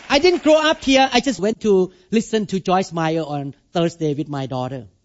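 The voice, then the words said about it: Non-native English accent. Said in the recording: “You speak with accent. You are not American born.”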